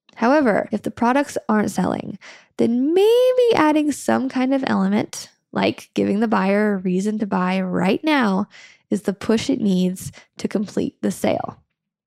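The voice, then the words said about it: Slightly raspy hoarse voice. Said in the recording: “It's a little raspy today because we are currently getting over a heavy-duty cold ... you might hear a little bit of rasp in my voice”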